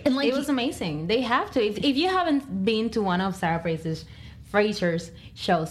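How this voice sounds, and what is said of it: Noticeable accent. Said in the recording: “sorry, my accent is kicking.”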